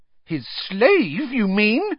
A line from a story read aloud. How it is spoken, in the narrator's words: said Hermione, her voice rising shrilly